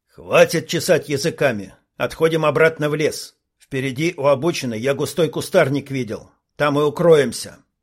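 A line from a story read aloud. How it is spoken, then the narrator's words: Commanding voice. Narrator (Russian): командирским голосом сказал Илья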